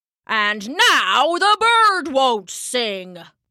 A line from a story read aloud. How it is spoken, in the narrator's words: Papa shouted